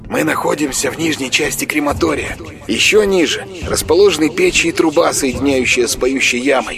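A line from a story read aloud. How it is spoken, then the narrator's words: Whisper inside head. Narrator (Russian): зашептал в голове Курамонова голос Марка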